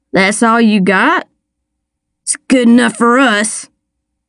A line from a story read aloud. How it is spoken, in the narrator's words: Tinks Williams growled from the stool beside him